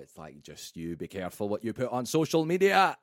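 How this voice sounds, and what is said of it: Put-on Scottish accent. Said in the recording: “he's Scottish, by the way. Yeah. That was my Scottish accent.”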